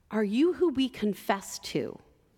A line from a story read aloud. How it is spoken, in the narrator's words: asked